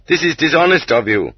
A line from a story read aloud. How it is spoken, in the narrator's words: barked back